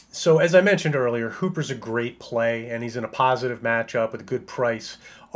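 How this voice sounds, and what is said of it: Slightly hoarse, strained voice. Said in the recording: “you can probably hear that I'm losing my voice a little bit”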